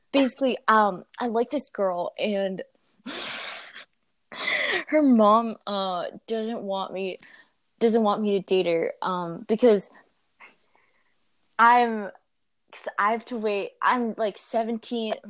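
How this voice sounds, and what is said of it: Imagined voice for a message sender. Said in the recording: “I don't know why I'm giving him this voice. This is what I imagined.”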